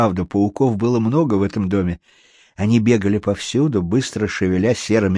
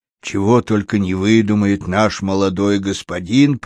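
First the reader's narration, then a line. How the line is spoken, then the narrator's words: Grumbling. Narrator (Russian): проворчал он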